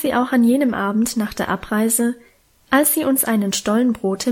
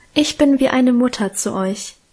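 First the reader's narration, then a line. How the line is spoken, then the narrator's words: Emotional sigh. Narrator (German): seufzte sie gefühlvoll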